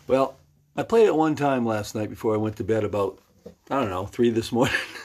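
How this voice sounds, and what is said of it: Raspy, weakened voice. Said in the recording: “my voice isn't very good. It's not very good anyway right now... my vocal cords, they're kind of raspy. I can't get to a certain notes that I used to get to.”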